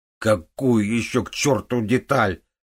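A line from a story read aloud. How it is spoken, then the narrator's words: Desperate roar. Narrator (Russian): проревел Левик в отчаянии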